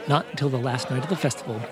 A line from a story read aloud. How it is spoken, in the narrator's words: Aziza said